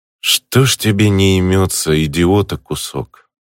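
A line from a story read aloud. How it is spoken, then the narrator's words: Sighing. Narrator (Russian): Вздохнул я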